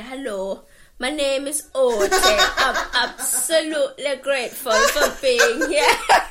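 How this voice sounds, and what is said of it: Put-on northern English accent. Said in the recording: “I'm just going to go proper northern. Just go full on northern.”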